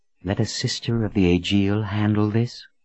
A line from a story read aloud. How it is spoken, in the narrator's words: she said in a whisper